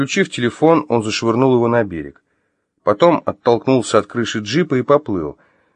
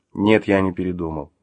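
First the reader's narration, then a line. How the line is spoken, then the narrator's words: Calm reply. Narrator (Russian): спокойно ответил Артем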